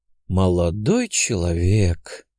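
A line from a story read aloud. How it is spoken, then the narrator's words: Weary. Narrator (Russian): устало произнес Ясвин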